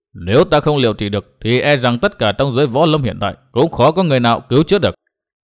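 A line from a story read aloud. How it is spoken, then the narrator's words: Offended, angry old man. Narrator (Vietnamese): những lời khinh thị của Nguyên Bình làm cho Thiên Huyền phật ý, cho nên lão ta nói một cách giận dữ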